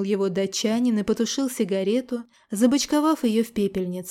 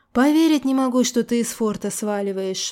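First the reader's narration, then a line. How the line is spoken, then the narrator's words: Sighing. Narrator (Russian): вздохнул Селин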